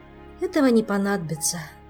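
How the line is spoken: Sighing. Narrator (Russian): вздохнул Мафей

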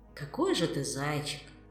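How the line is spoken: Sad sigh, inner voice. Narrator (Russian): печально вздохнул внутренний голос

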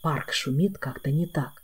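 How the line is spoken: Whispered reply. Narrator (Russian): тоже шепотом отозвался он

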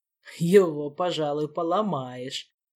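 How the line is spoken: Chuckling. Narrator (Russian): хохотнул Гиппократ

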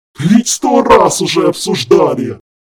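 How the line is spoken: Howling. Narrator (Russian): взвыл Харган

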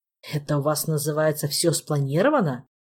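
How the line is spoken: Grumbling. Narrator (Russian): проворчал Макс

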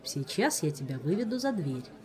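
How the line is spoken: Calm tone. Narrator (Russian): сказал Диего все тем же спокойным тоном

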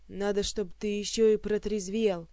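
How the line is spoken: Growl. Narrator (Russian): прорычал Элмар

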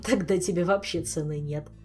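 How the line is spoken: Loud laughter. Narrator (Russian): расхохотался Шелар

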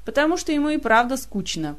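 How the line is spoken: Grumbling. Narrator (Russian): проворчал Элмор

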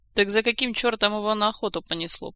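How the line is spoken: Grumbling. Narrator (Russian): проворчал Жак

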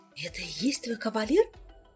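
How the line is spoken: Surprised whisper. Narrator (Russian): удивленно шепнула Аленка

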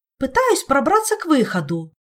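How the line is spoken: Angry snap. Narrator (Russian): сердито огрызнулась Ольга

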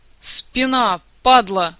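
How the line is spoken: Howl of pain. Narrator (Russian): взвыл Кантор

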